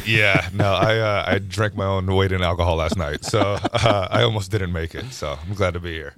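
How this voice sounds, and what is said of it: Unusually deep, low voice. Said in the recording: “you got a great radio voice ... I'm very hungover ... it's much deeper than I ... it's never this deep ... he's really deep voiced in the morning”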